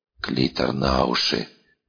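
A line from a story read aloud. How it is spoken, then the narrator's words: Weak, barely conscious advice. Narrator (Russian): На секунду очнувшись, посоветовал дрой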